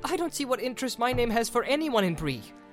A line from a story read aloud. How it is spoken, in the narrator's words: said Frodo angrily